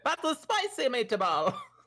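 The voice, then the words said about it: Bad put-on Italian accent. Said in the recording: “I should have done it with an accent ... That was really bad ... I'm literally the worst when it comes to accents ... The Italian community would like an apology.”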